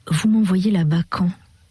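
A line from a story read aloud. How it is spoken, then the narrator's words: Lifeless asking voice. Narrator (French): finit par demander Augustin d'une voix morte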